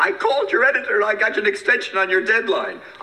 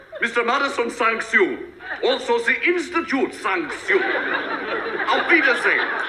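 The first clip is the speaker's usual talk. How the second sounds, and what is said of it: Put-on Viennese accent. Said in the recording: “I used a Viennese accent.”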